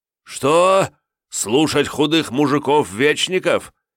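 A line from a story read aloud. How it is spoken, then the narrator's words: Hateful shout. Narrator (Russian): с ненавистью выкрикнул Святослав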